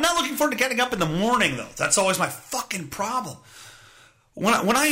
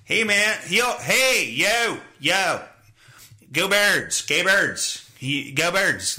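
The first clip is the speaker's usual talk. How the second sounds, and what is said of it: Exaggerated Philadelphia accent. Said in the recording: “stupid fucking Philly accent”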